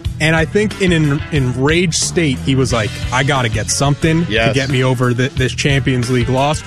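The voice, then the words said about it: New York accent. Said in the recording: “the New York accent.”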